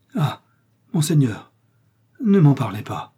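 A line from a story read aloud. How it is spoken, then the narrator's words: Tearful exclaiming innkeeper. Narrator (French): s'écria l'hôte de son ton de voix le plus larmoyant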